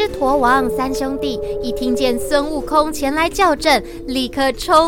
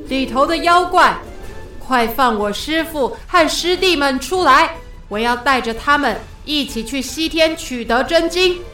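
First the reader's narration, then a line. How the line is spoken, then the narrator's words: Loud shouting. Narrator (Chinese): 孙悟空…大声的叫喊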